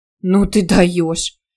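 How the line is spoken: Amused snort. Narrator (Russian): Юлька хмыкнула

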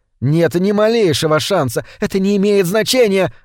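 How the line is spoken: Screaming. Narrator (Russian): завопила мама

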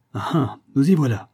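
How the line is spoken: Exclaiming. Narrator (French): s'exclama Mr

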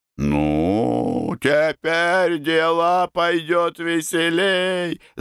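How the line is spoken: Shout. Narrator (Russian): закричал Карабанов

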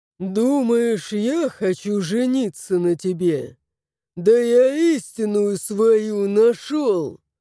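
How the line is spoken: Growling. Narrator (Russian): Зарычал он

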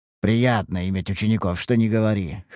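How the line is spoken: Wry chuckle. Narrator (Russian): хмыкнул

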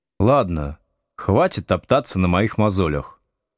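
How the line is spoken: Weary. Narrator (Russian): устало прекратил тему Слушкин

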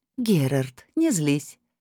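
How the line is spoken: Tender voice. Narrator (Russian): нежным голосом обратилась к нему Лилит

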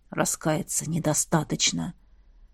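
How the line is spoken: Hoarse wheeze. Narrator (Russian): прохрипел Сейлрим

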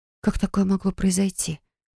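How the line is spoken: Whisper. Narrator (Russian): прошептала я

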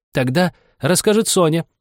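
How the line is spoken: Two voices exclaiming. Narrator (Russian): воскликнули оба

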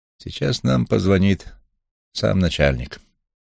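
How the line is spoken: Calm. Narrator (Russian): сказал он спокойно

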